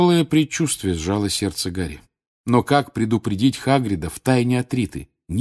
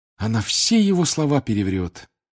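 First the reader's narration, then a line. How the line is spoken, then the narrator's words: Heavy sigh. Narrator (Russian): тяжело вздохнул Гарри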